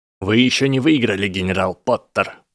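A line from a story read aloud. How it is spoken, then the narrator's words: Harsh bark. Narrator (Russian): рявкнул Драко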